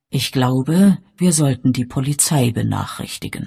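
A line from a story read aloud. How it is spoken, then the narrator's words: Gentle. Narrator (German): sagte der Erzdiakon sanft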